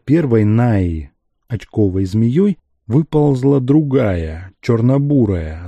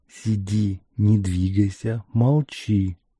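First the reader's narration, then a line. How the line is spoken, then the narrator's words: Dispassionate whisper. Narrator (Russian): шептал Ариэль, бесстрастный, как всегда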